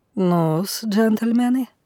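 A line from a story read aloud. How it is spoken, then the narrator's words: Velvety voice, slight foreign accent. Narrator (Russian): заговорил бархатным голосом, в котором чувствовался легкий иностранный акцент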